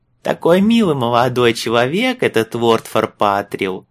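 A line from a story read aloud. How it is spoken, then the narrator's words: Cooing. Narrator (Russian): проворковала Матрона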